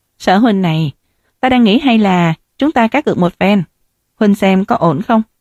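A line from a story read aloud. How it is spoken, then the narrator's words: Frowning question. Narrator (Vietnamese): Hồ Duyệt khẽ nhíu hai hàng mày và hỏi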